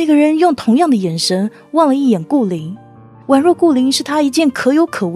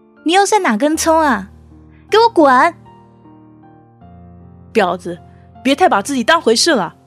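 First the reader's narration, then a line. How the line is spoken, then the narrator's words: Loud scolding. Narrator (Chinese): 大声的呵斥道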